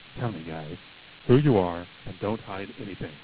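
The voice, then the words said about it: Low, conspiratorial put-on voice. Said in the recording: “do a different voice here when I do these questions ... my Secret Service voice is ... No. This is going to be the low, conspiratorial voice.”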